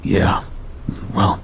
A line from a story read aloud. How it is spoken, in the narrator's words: I said hoarsely